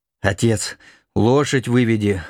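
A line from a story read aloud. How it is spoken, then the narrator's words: Wheezing, coughing. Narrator (Russian): хрипя, кашляя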